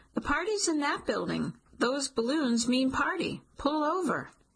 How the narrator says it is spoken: yell

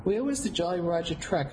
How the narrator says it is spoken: asked

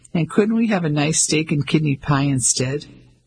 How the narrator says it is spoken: Ellie laughed

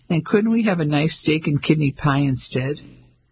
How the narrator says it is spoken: Ellie laughed

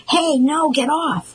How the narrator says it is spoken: Amir hollered

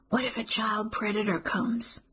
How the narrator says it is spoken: whispers

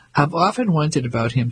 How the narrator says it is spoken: Tommy said

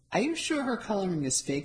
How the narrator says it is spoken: I asked

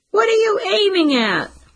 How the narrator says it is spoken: one of them shouted

